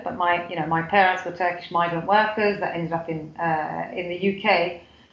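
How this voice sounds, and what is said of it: British accent. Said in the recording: “I grew up in the UK, as you can probably tell from my accent.”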